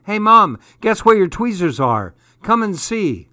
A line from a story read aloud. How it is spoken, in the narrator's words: Then I shouted to Mom